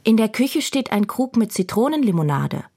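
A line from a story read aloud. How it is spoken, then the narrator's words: Great-grandmother calling after. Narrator (German): ruft die Urgroßmutter ihr nach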